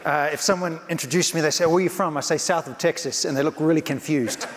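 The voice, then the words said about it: New Zealand accent. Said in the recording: “you can tell by my accent ... I'm ... from New Zealand”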